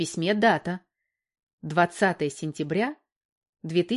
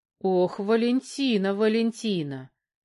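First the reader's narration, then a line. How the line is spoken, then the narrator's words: Drawled. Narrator (Russian): протянул Казаков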